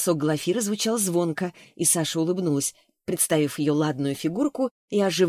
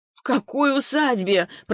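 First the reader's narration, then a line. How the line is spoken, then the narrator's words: Moaning. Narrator (Russian): простонала Глафира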